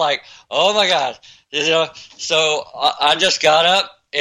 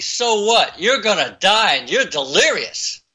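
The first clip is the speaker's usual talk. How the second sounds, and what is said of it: South Boston accent. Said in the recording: “Like that, in that South Boston accent.”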